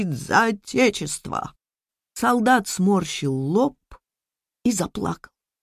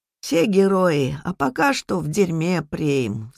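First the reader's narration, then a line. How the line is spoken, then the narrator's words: Sighing. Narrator (Russian): вздохнул хозяин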